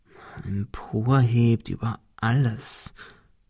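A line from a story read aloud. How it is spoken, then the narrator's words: Murmured. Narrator (German): murmelte Ben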